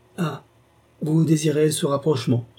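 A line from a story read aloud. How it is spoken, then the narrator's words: Flustered exclamation. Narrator (French): s'écria monsieur de Carquebus, de plus en plus troublé par les signes de Clémence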